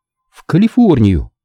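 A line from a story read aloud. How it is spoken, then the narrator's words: Uncertain. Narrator (Russian): неуверенно произнесла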